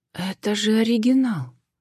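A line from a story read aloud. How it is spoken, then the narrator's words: Sudden breathless exclamation. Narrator (Russian): вдруг выдохнула Джен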